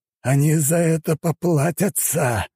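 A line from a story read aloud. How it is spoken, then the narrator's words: Hissed. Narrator (Russian): прошипел командир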